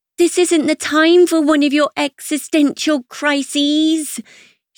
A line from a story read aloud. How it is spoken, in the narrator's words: she yells above the thump of the music